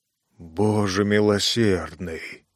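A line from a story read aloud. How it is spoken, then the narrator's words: Whisper after pause. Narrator (Russian): прошептал через некоторое время Эл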